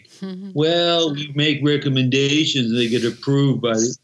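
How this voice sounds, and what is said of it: Impersonation of a navy chief. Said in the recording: “Your impersonation of a chief is excellent, by the way. That was spot on. That's just how I imagined a chief.”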